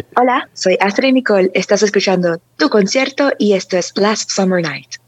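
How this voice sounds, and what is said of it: Radio announcer voice. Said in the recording (Spanish): “voz de locutora”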